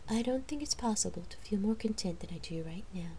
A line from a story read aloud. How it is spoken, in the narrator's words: she murmured